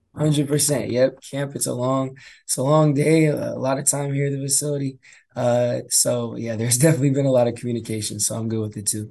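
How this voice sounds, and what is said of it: Slightly hoarse voice. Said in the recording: “I like that the voice is a little hoarse. That means we're in the camp mode, and it means you're probably spending long days and a lot of chatting.”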